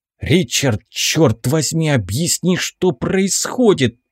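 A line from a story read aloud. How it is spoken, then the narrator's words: Pained hiss. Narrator (Russian): прошипел я, морщась от боли в побитом теле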